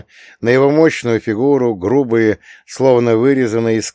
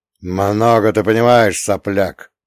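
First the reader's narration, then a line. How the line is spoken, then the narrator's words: Irritated shout. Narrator (Russian): раздраженно прикрикнул на него дух-хранитель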